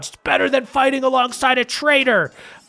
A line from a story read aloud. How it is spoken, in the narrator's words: The other knight is just yelling